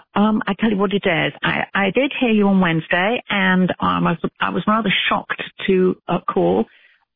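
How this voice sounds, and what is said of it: British accent. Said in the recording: “you don't sound like you're from Alabama ... I'm British ... She's British ... I love her accent”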